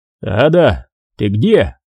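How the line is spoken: Shouting. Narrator (Russian): крикнул Уолтман

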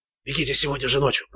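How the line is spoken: Whisper. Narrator (Russian): продолжал шепотом Ричард

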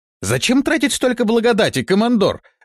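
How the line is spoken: Exclaiming in unison. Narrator (Russian): в один голос воскликнули Бартоломей и Торн

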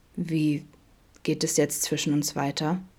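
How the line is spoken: Calm question. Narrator (German): fragte Adam schließlich ruhig

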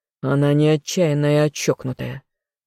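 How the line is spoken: Growled. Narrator (Russian): рыкнул я в ответ

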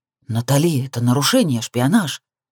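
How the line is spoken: Hiss. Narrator (Russian): прошипел брат

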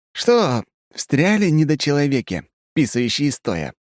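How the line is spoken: Cheerful question. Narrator (Russian): весело интересуюсь

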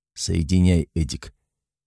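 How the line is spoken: Hoarse, steadied voice. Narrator (Russian): справился с подступившей неуверенностью и заметной хрипотцой в голосе произнес

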